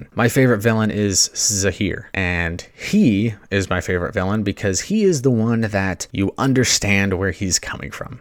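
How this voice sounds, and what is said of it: Excited voice. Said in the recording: “I'm sure you can hear it in my voice. I'm very excited”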